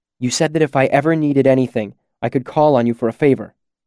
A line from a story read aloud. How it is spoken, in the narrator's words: I said urgently